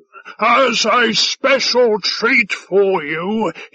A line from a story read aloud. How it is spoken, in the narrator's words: he shouted